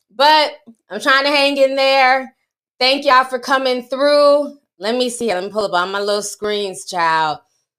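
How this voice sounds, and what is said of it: Sick, under-the-weather voice. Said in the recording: “I'm still under the weather. You can hear it in my voice,”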